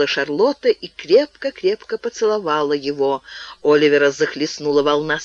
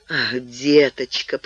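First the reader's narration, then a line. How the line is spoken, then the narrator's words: Moaning. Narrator (Russian): простонал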